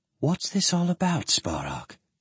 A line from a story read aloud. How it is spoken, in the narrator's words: she whispered